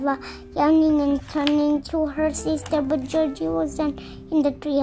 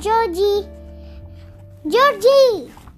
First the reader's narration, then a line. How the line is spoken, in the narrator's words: Eva shouted loudly